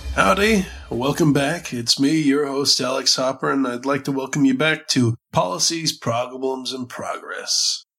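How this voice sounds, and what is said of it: Nasal, scratchy sick voice. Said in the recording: “apologize for my voice ... fighting some bronchitis ... if I sound nasally or scratchy throughout this episode”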